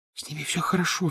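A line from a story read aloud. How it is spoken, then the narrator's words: Whisper. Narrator (Russian): зашептала она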